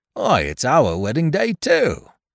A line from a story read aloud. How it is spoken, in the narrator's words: exclaimed the carrier